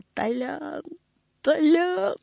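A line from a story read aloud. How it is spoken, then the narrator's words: Sobbing repetition. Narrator (Russian): Диакон, всхлипывая, повторяя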